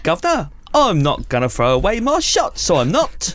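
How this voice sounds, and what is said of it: Mock Cockney accent. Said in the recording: “Do you think his Cockney accent's going to be?”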